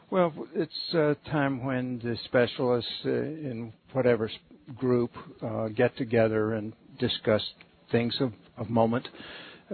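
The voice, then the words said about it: Distinctive regional accent. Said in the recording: “That's a great accent. ... It's fabulous, let me tell you.”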